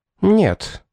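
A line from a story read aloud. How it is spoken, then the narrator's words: Rather sharp reply. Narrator (Russian): довольно резко ответила Веспасия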